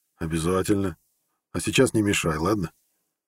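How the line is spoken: Snorting. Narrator (Russian): Навин хмыкнул

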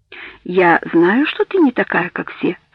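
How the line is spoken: Even, patient voice. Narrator (Russian): сказал он ровным, терпеливым голосом

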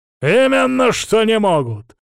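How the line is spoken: Barking priest. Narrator (Russian): рявкнул отец Савелий

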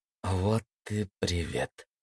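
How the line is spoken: Dejected voice. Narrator (Russian): упавшим голосом сказала Даша

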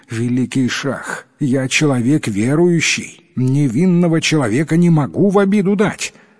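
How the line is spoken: Pleading. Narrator (Russian): Взмолился Ярдан Кули

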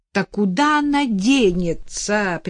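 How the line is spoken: Contemptuous exclamation. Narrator (Russian): презрительно воскликнула Ирина Егоровна

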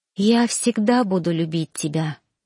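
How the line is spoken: Whispered. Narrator (Russian): прошептали мои губы

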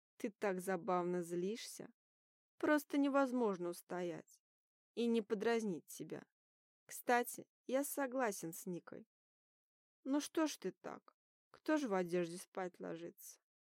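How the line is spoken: Theatrical sigh. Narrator (Russian): Театрально вздохнул он

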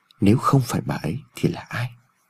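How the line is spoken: Inaudible old man mutter. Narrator (Vietnamese): Ông Phúc lẩm bẩm trong miệng mà không người nào nghe thấy

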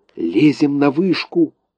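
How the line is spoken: Whisper. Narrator (Russian): прошептал он Энни

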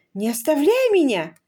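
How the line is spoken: Panicked exclamation. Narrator (Russian): воскликнула Люси, сразу же потеряв все свое мужество

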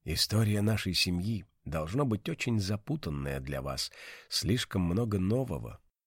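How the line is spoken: Quiet whisper. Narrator (Russian): Сента тихо прошептала

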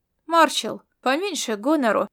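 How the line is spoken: Calm, through teeth. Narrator (Russian): спокойно процедила она

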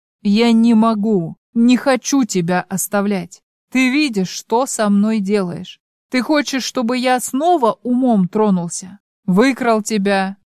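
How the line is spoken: Forced through teeth. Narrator (Russian): сквозь зубы выдавливает

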